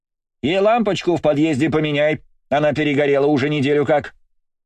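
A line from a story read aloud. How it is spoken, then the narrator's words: Distant shouting. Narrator (Russian): Уже из подъезда закричала тетя Тамара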